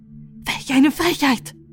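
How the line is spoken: Shrieking queen. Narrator (German): schrie die Königin

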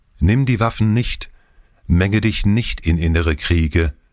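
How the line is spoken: Called out. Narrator (German): einer von dem erdentsprossenen Volke rief ihm zu

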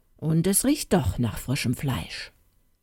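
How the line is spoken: Mumbling into beard. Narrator (German): Bimbam brummte sodann in den Bart

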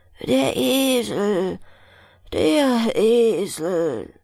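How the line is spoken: Miller sighing. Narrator (German): seufzte der Müller

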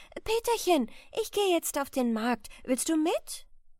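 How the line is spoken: Mother calling. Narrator (German): ruft die Mutter

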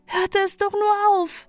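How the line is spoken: Whining lament. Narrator (German): jammerte Balte

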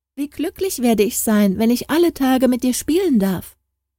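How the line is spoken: Called out. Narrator (German): rief Harald

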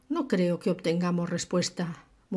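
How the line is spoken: Murmur. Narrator (Spanish): murmuró

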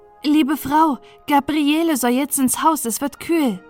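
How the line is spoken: Calling from the house. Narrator (German): rief es vom Hause

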